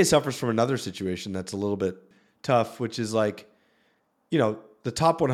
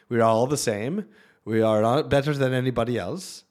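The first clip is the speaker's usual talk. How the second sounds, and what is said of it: Put-on Swedish accent. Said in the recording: “That's my Swedish accent.”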